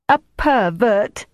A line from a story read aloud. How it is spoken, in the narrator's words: she said triumphantly